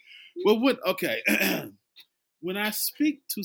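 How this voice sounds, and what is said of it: Usual voice. Nothing is said of it.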